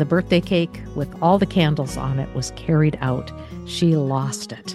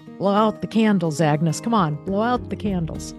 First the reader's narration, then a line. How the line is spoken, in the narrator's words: gruffly mumbled